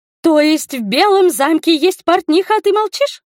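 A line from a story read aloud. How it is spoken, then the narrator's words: Offended shriek. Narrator (Russian): оскорбленно взвизгнула Ада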